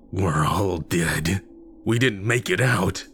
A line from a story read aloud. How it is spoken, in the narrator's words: cackled